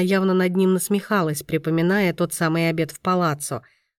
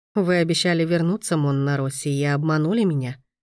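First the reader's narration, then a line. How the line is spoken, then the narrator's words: Calm, hiding joy. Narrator (Russian): произнес он спокойно, изо всех сил стараясь не выдать эту невольную радость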